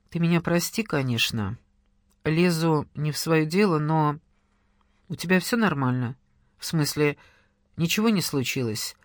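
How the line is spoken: Gentle inquiry. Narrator (Russian): Мягко поинтересовался Денис

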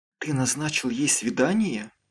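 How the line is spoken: Whisper. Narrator (Russian): прошептала

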